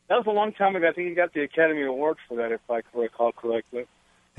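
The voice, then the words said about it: Slightly weak voice. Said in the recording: “I have a cold, so my voice is a little weak.”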